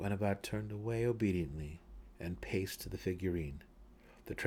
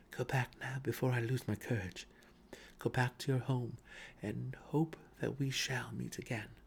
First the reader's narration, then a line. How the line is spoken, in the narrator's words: Drizzt whispered in the cat's ear